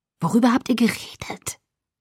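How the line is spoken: Whisper. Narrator (German): Flüsternd

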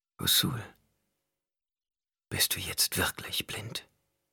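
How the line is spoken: Whispering. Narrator (German): flüsterte

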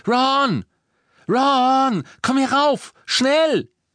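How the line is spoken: Shouting down the stairs. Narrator (German): beugte sich über das Treppengeländer und schrie

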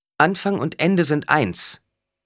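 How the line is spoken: Called out. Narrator (German): rief Alia

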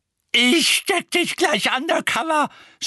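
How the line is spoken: Woman shouting. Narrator (German): schrie Mrs

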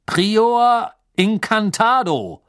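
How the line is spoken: Thundering shout. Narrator (German): rief mit donnernder Stimme

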